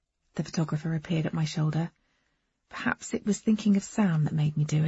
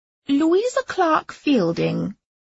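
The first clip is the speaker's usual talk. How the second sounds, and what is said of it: Strangulated upper-class English accent. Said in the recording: “I said in my most strangulated upper-class accent.”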